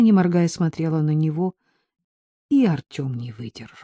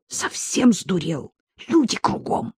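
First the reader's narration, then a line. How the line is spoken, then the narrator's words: Hissed. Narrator (Russian): Ольга прошипела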